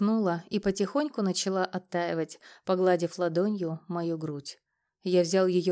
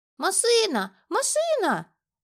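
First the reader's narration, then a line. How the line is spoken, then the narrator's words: Sudden shout. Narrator (Russian): закричала вдруг Юлька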